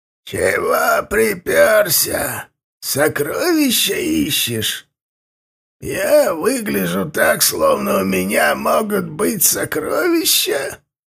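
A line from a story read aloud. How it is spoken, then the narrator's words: Creaky voice. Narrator (Russian): проскрипел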